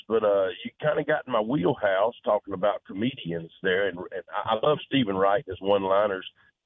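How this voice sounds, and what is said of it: Sick, under-the-weather voice. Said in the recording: “pardon my voice. I'm a little under the weather. Been uh, little sick last couple of days”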